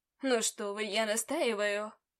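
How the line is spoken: Syrupy mocking voice. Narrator (Russian): Елейным голосом ответил он, передразнивая меня

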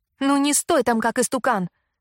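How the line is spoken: Sharp shout. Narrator (Russian): прикрикнула на меня Кэмпбелл

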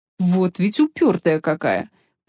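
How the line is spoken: Grumbling. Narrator (Russian): проворчал Федерико

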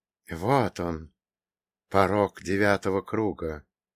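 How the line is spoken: Whisper. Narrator (Russian): прошептал Каин

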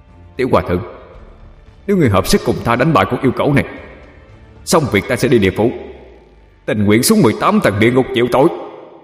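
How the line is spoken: Loud. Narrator (Vietnamese): lớn tiếng nói

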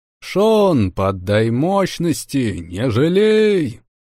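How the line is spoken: Loud command. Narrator (Russian): Громко велел я

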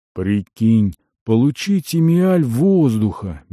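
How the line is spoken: Dreamy. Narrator (Russian): мечтательно произнес Керума

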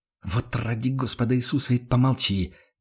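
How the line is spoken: Angry hiss. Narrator (Russian): прошипел Карл Штефан разозленно

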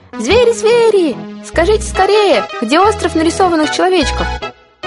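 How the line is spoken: Shouting. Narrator (Russian): Рыба-бутылка закричала

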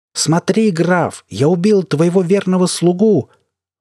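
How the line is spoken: Screamed. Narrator (Russian): завопил Марк в пустоту

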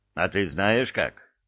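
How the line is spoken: Angry question. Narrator (Russian): Сердито спросила центральная

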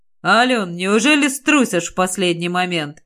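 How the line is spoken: Mocking question. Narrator (Russian): насмешливо спросил он

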